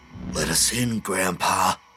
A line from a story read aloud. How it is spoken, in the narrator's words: Petey whispered in a low growl